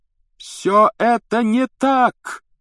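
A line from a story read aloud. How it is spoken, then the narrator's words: Shouting. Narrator (Russian): закричал Гарри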